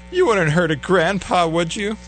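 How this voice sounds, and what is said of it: Feeble old man voice. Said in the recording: “He'll put on the feeble old man voice”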